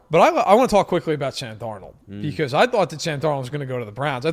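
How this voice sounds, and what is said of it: New York accent. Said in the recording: “I am from New York, in case nobody can tell from my accent.”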